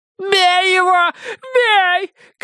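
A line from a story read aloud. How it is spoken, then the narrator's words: Woman shouting. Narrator (Russian): кричала дама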